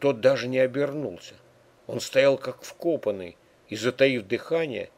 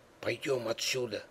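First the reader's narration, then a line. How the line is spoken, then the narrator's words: Quiet. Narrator (Russian): сказал тихо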